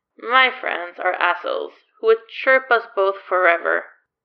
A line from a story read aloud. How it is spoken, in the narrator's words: Claude says